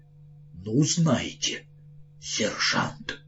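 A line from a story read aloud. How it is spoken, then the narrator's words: Weak voice. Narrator (Russian): слабым голосом произнес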